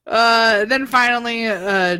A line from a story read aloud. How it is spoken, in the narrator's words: Jordan yells